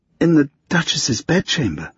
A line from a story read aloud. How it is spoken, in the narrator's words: Lucy croaked